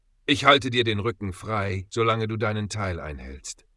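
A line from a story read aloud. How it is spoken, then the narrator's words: Deep, calm voice. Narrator (German): begann der größte der drei, seine Stimme tief und ruhig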